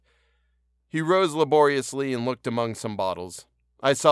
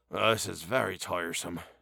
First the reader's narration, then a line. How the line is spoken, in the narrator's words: mutter